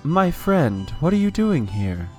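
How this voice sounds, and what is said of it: Plain generic character voice. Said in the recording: “in my best Kashak voice, which is the most general voice I think you've ever done for ... An NPC ... ever.”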